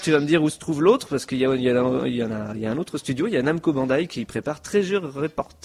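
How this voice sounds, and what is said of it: Strong regional accent, hard to understand. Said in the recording (French): “désolé pour mon accent ... je n'ai pas compris ce que tu as dit”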